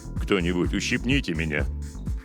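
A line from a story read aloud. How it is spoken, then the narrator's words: Grumbling from behind. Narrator (Russian): буркнул позади капитан Робертс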